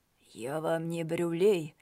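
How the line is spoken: Hoarse rasp. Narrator (Russian): прохрипел комиссар

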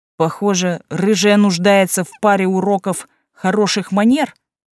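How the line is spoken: Growled. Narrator (Russian): буквально прорычал один из серых

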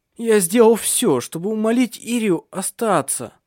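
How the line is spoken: Moaned. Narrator (Russian): Простонал он

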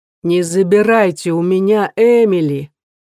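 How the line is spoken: Loud crying child. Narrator (Russian): громко плачет ребенок

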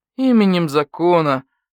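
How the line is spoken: Gloomy. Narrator (Russian): мрачно сказал барсук-старший

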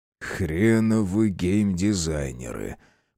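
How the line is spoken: Grumbled. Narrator (Russian): Пробурчал Андрей

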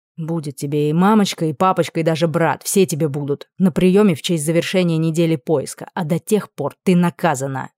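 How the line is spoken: Menacing. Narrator (Russian): Грозно заявили

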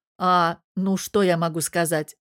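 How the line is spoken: Wry snort. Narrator (Russian): хмыкнул Мирон

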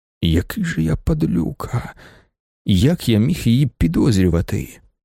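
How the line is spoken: Whisper. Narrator (Ukrainian): прошепотів Вокульський

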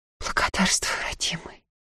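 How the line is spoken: Weak, exhausted whisper. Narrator (Russian): Едва держась на ногах, прошептала

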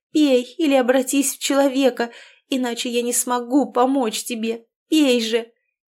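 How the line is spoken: Helpless sobbing. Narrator (Russian): разрыдалась от бессилия

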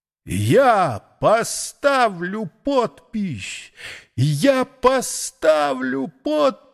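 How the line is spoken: Frenzied howl. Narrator (Russian): взвыл обезумевший Найра

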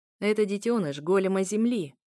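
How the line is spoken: Said with a snort. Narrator (Russian): хмыкнул он

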